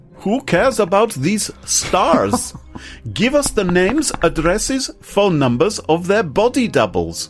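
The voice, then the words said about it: Put-on German accent. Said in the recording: “Should I do it in a German accent?”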